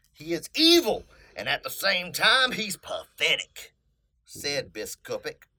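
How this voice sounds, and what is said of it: Put-on country redneck accent. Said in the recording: “every single impersonation that you do is just a country redneck”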